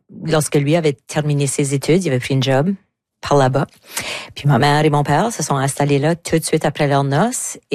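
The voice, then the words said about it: Southeast New Brunswick French accent. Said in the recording (French): “j'ai pas habité le sud-est du Nouveau-Brunswick. Comme que tout le monde peut le constater par mon accent.”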